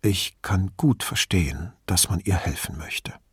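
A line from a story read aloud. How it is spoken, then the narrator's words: Very quiet confiding. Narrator (German): Dottor Donato vertraulich sagte so leise, dass Brunetti gerade noch folgen konnte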